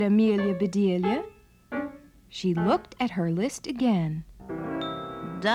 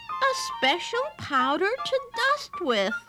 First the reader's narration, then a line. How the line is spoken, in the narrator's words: exclaimed Amelia Bedelia